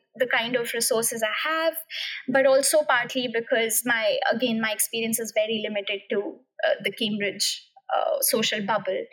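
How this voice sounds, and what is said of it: Non-native English accent. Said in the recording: “my accent ... not a native english speaker ... english not being my first language”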